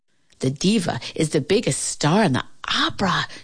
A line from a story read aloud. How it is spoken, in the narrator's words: Shirley whispered to her